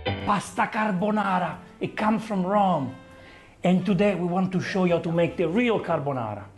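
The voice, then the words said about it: Italian accent. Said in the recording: “stereotypical Italian accent ... because Vincenzo is Italian”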